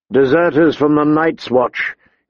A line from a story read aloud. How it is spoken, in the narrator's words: he said grimly